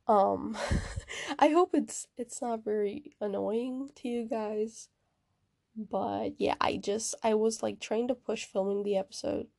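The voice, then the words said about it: Weird, unwell-sounding voice. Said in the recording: “my voice sounds weird, that's because I've been a little bit sick ... hear me sounding like this”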